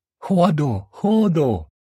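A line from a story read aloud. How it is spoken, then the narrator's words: Shouting. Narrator (Russian): закричала Натаха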